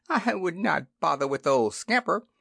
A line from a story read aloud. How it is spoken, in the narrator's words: advised Bitty Bit with a small chuckle